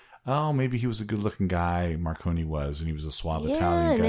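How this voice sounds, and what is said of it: Usual voice. Nothing is said of it.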